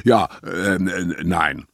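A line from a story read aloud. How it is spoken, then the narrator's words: Stuttering. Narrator (German): stotterte er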